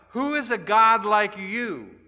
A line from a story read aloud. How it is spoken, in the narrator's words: cried out